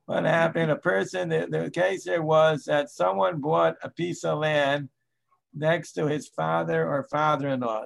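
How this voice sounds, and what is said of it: Voice going, strained. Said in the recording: “I'm losing my voice.”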